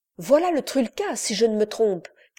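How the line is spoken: Exclamation. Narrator (French): s'écria-t-il

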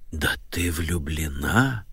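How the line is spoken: Dramatic whisper. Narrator (Russian): произнесла Нэнси Джиллет страшным шепотом

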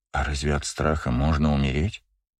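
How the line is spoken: Quiet question. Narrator (Russian): тихо спросила Эхо

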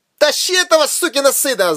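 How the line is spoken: Screaming. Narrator (Russian): завопил один из приятелей Рейнера

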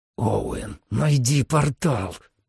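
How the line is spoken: Hissed. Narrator (Russian): прошипел Сэм

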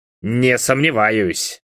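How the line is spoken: Muttering. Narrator (Russian): пробурчал

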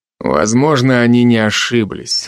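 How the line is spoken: Grumble. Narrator (Russian): буркнул Алви

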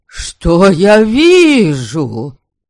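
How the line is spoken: Mock-grieving exclamation. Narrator (Russian): С выразительным сокрушением, или чуть-чуть издеваясь, воскликнул Вольга

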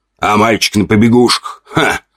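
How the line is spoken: Snorting orc. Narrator (Russian): хмыкнул второй орк

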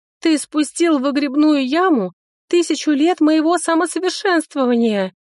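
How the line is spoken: Female elf sobbing harder. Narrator (Russian): Еще сильнее зарыдала эльфийка

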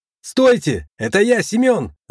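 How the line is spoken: Shouting. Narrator (Russian): закричал мой товарищ по несчастью

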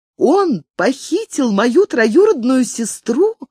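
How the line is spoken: Exclaimed. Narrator (Russian): воскликнула Фармазанта

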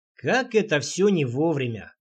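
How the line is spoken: Grumble. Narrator (Russian): буркнул Рейнар

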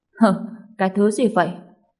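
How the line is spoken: Angry, very irritated. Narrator (Vietnamese): La Cường cũng tức giận bất bình theo, vô cùng bực dọc

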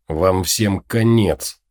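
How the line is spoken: Hissing. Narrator (Russian): прошипел он

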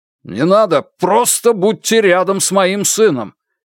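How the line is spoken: Boss shouting. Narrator (Russian): крикнул начальник Джан

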